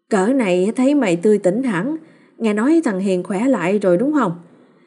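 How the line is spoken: Eager, effusive congratulation. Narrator (Vietnamese): Chị Trúc bán rau cạnh cũng rối rít chúc mừng

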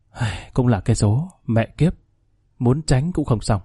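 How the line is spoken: Sighing mutter to self. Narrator (Vietnamese): Khanh thở dài tự nhủ

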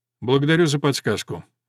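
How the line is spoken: Cold. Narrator (Russian): холодно сказал Грант

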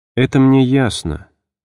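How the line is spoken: Changed but calm voice. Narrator (Russian): сказала она поразительно изменившимся, но спокойным голосом

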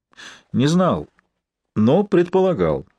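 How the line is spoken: Calm reply. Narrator (Russian): спокойно ответил профессор

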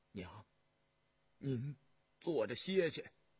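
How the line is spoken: Soft. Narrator (Chinese): 尹纪善轻声说道

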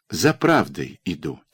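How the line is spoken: Quiet answer. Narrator (Russian): тихо ответила она

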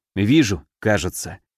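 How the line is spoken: Quiet reply. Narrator (Russian): так же тихо отозвался я

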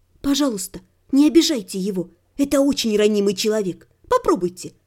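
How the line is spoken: Confidential whisper. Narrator (Russian): прошептала, как бы по секрету

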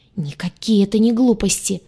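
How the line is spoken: Angry hiss. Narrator (Russian): Зло зашипела лагартианка

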